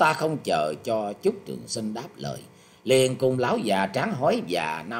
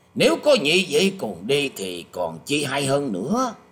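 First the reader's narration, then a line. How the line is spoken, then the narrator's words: Smiling. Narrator (Vietnamese): Thái Thượng Khanh mỉm cười nói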